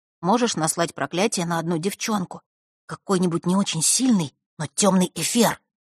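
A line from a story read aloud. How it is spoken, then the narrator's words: Wary whisper. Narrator (Russian): зашептал он, с опаской оглядываясь на кухарку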